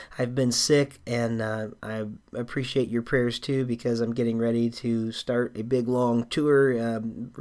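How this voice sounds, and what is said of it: Slightly hoarse voice. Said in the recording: “You can probably tell from my voice, I'm still a little bit hoarse.”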